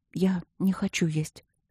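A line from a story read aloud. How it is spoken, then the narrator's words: Quiet. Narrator (Russian): сказала Аня тихо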